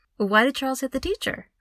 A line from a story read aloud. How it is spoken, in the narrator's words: I asked quickly